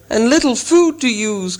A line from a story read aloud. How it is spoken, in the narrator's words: cried Bilbo, always practical on such points